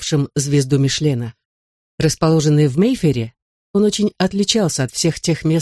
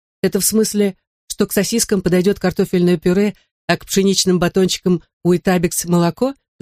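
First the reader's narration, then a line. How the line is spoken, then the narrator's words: Laughing. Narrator (Russian): засмеялась Минни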